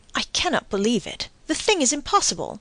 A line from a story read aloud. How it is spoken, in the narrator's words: Madame Danglars turned very pale, then exclaimed